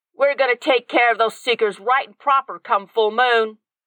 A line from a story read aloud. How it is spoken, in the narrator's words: the Pure Heart yelled across the room